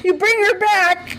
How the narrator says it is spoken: Jefferson shouted to his ex-wife

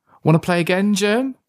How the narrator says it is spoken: Billy asked, still laughing

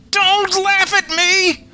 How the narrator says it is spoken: All squeal

